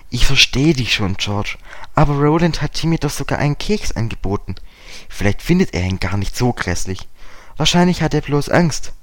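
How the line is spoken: Plain. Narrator (German): sagte Dick

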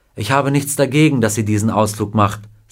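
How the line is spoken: Plain. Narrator (German): sagte Mrs

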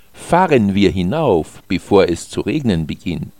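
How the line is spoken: Plain. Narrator (German): sagte Alex

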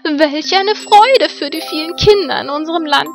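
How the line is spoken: Loud call. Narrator (German): rief sie laut

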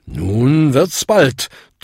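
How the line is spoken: Thundering. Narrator (German): donnerte Bung

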